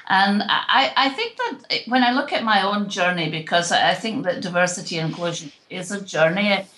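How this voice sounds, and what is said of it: Scottish accent. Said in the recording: “my accent is from somewhere east of South Florida ... I'm originally from Scotland”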